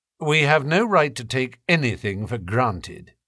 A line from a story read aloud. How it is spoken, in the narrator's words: Holmes answered